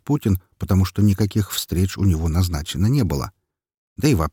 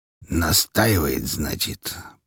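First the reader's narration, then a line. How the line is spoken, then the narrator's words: Mutter. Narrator (Russian): пробормотал Григорий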